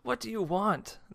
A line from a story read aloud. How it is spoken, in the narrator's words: cried